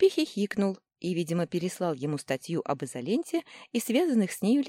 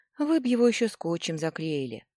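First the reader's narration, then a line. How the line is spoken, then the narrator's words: Sighing. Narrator (Russian): вздохнула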